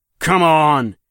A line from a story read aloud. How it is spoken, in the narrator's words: he roars, firing a burst of bullets